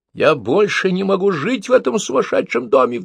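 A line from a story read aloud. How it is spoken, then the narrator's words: Sudden shriek. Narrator (Russian): вдруг завизжал Петя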